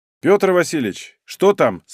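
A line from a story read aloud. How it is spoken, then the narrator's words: Plain. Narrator (Russian): спросил Сапонин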